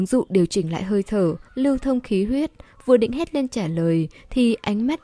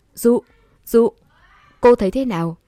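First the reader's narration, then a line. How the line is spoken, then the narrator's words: Loud worried shout. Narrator (Vietnamese): Huấn luyện viên người nước ngoài thấy cô im lặng thì tưởng cô ngất rồi, hét lớn tên cô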